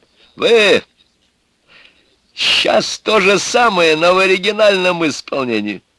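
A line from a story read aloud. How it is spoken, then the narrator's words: Loud announcement. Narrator (Russian): громко объявил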